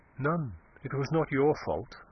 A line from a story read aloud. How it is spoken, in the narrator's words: she said quietly